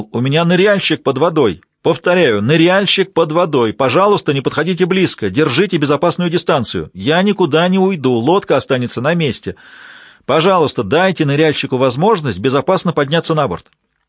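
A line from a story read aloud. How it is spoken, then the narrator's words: Shouted through megaphone. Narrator (Russian): крикнул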